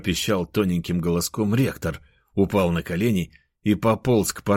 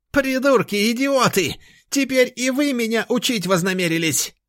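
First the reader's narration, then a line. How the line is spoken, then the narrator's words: Shrill shout. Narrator (Russian): Визгливо прокричал ректор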